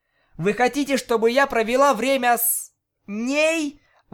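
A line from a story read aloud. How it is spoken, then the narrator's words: Exclamation. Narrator (Russian): воскликнула Октавия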